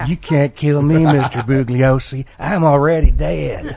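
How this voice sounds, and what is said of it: Charles Manson impression. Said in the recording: “That was a better Manson impression.”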